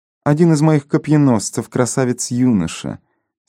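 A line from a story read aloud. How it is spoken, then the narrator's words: Calm queen continuing. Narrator (Russian): спокойно продолжала королева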